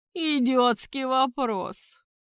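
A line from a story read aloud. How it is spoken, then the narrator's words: Mocking grunt. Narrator (Russian): Насмешливо хрюкнул архидемон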